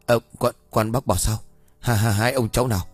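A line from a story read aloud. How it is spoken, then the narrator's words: Stammering, at a loss. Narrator (Vietnamese): Ông bá tèo cứng họng khó khăn lắm mới lắp bắp nói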